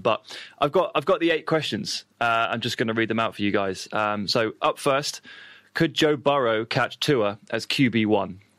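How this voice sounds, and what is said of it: British accent. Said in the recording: “the luxurious British accent in all of its different guises and forms, but you're just going to have to do or make do with mine”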